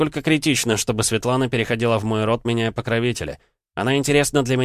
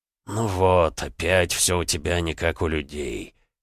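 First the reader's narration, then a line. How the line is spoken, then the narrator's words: Grumbling mutter. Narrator (Russian): буркнул Комара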